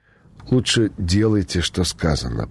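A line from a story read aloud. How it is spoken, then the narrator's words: Uncertain plaintive threat. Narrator (Russian): пригрозил юный водитель неуверенно жалобным голосом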